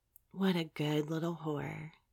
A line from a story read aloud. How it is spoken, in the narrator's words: whispered in my ear